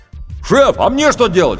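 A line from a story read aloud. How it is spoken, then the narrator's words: Shouted from below. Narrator (Russian): крикнул снизу рулевой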